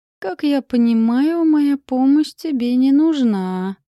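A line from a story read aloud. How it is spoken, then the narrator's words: Drawling. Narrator (Russian): протянул Лайон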